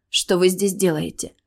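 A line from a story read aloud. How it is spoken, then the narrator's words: Embarrassed breathless exhale. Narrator (Russian): выдохнула, загораясь краской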